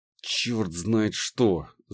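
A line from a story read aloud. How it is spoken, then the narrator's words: Annoyed, through gritted teeth. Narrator (Russian): с досадой процедил копающий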